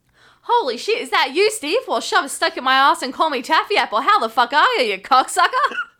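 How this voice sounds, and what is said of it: Put-on Australian accent. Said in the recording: “I really want ... to read in an Aussie accent ... I have to say this in an Australian accent.”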